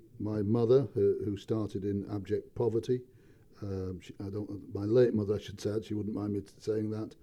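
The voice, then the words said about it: Northern English accent. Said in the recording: “I grew up in the north of England. The accent tends to give it away.”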